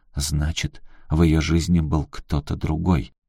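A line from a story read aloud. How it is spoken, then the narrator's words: Realizing whisper. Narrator (Russian): Аляска, поняв, что шла по ложному пути, прошептала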